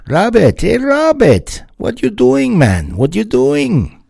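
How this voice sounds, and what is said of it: Bad put-on Jamaican accent. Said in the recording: “that's terrible Jamaican accent creeping in there”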